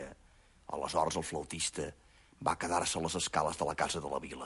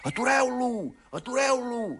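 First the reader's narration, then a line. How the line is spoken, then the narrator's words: Crowd shouting. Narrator (Catalan): cridaven tots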